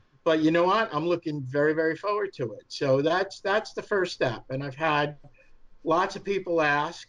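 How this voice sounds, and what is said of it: New York accent. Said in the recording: “my New York accent, even though I try to hide it”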